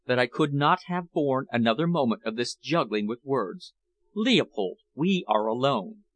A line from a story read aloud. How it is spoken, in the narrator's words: she murmured